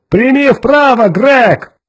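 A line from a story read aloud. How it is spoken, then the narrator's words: Urgent shout. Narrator (Russian): крикнул Кертис, стараясь избежать катастрофы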